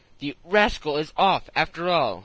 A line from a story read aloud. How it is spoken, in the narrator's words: he exclaimed